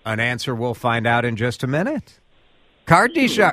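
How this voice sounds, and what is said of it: Imitates a TV host's voice. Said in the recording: “That's like my best Ryan Seacrest impression.”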